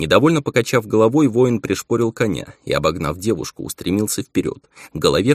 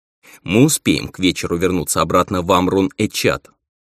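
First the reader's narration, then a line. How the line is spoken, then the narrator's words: Stern tone. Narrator (Russian): строгим тоном продолжила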